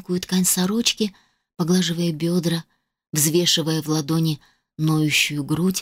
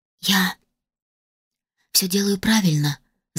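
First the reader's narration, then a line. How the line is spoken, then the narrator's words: Nervous whisper after swallowing. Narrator (Russian): сглотнув, прошептала я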